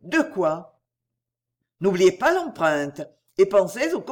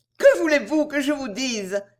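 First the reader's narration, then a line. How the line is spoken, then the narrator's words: Distressed exclamation. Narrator (French): s'écria-t-elle en se tordant les mains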